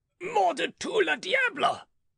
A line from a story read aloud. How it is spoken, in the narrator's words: cried he